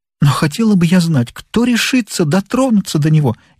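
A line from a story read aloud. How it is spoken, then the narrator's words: Sobbing woman. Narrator (Russian): она даже всхлипнула при этих словах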